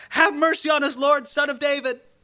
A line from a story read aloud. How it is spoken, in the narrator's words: Two crazy blind men screaming out at the top of their lungs